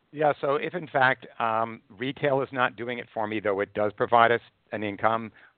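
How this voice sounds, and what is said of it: Strained, failing voice. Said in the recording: “I'm losing my voice, which has been an issue lately.”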